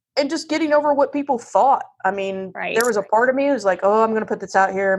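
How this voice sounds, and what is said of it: Southern American accent. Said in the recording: “this is my voice. I do have a Southern accent.”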